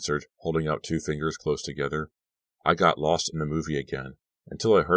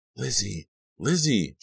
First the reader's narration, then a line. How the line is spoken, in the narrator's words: she cried out in a loud whisper